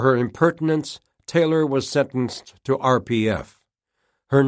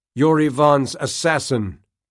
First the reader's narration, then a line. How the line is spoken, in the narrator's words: Taylor shouted